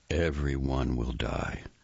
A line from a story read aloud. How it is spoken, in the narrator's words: the voice said in a calm monotone